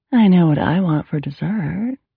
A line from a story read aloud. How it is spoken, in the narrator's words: the woman cooed